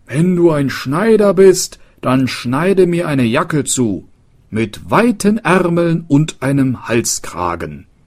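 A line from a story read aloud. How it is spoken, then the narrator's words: Called out. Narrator (German): rief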